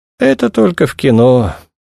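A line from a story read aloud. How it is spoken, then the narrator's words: Sigh. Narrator (Russian): вздохнул Барченко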